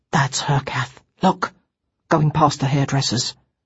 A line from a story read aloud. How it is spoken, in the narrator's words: he said quietly into my ear